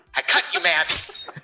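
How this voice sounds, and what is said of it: Menacing, scary threatening voice. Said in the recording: “That's her scary voice. That's her, I mean business, you're going to get cut voice.”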